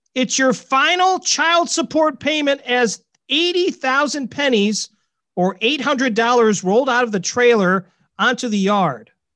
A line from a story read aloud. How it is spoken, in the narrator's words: Her ex-husband shouted back